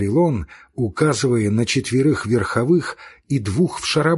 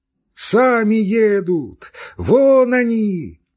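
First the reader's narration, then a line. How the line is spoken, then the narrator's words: Man shouting. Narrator (Russian): прокричал мужик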